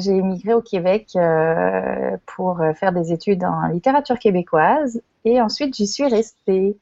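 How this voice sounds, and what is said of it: French accent, not fully Québécois. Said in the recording (French): “vous l'entendrez euh, à mon accent, pas une vraie québécoise pure laine comme on dit, puisque je suis moi aussi française”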